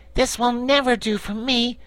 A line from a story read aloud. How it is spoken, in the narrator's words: exclaimed the Patchwork Girl